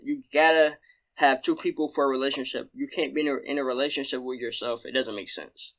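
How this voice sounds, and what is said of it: Southern accent, fast speech. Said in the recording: “my bad if I'm talking fast or stuttering... It's a southern accent in me”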